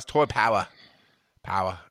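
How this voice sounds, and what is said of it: Failed attempt at an accent. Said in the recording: “Do I have to do the accent ... I can't do it. ... It's horrible. I can't do it.”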